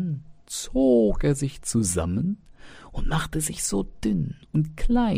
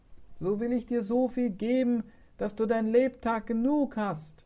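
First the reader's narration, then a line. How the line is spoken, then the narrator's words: Ghostly calling voice. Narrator (German): rief der Geist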